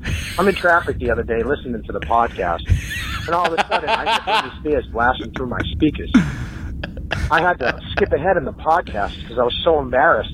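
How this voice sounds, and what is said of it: Strong New England accent. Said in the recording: “A plus on the accent. That is a true New Englander right there.”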